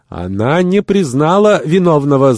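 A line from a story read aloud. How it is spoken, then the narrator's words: Shouting noblewoman. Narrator (Russian): закричала благородная курчанка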